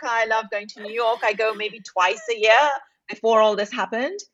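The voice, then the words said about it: British accent. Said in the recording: “when we have a British accent on the episode, I feel like it immediately elevates the sophistication level”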